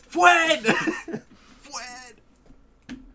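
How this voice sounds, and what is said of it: Yelling a name. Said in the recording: “I'm yelling for Fred at this point.”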